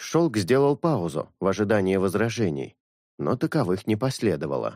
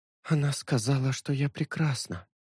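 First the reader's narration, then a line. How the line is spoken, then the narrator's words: Whisper. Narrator (Russian): прошептала Синель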